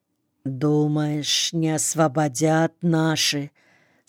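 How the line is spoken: Quiet question. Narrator (Russian): спросил тихо другой голос

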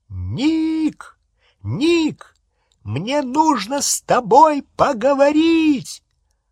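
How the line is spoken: Shouting over noise. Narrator (Russian): крикнул во всю мощь, перекрывая шум

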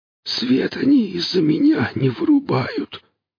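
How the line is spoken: Hoarse breathless whisper. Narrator (Russian): сиплый, задыхающийся шепот

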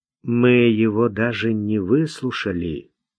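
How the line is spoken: Soft. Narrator (Russian): мягко сказал он

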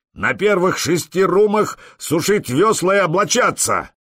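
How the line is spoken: Roaring. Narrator (Russian): проревел Простен

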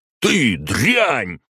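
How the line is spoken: Roaring. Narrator (Russian): взревел он

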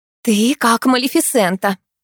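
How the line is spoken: Exclamation. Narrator (Russian): воскликнула Морозова

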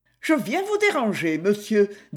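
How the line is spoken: Cheerful. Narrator (French): dit gaiement Ariane

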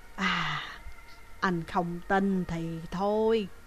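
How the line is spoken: Old woman sighing. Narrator (Vietnamese): Bà già thở dài nói

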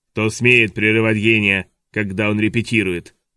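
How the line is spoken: Booming intimidating proclamation. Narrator (Russian): провозгласил он таким ракочущим голосом, что любой бы оробел, услышав его

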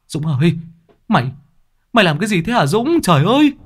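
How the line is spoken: Shout. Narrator (Vietnamese): Tiếng hét của Lâm

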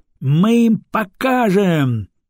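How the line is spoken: Sudden yell from calm man. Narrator (Russian): неожиданно заорал обычно спокойный Стефан

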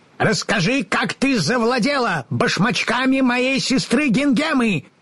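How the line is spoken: Stern shout. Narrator (Russian): Сурово крикнула Бастинда

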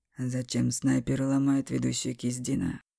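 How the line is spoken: Irritated question. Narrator (Russian): Раздраженно спросил

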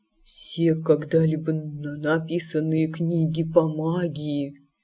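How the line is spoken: Whisper. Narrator (Russian): прошептал он

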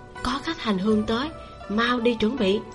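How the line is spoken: Nun speaking low. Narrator (Vietnamese): nữ ni hạ giọng nói

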